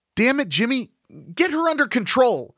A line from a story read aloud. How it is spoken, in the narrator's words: I yelled